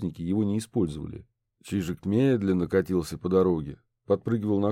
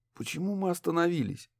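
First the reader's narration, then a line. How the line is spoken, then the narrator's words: Slightly hoarse voice. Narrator (Russian): Ее голос слегка хрипел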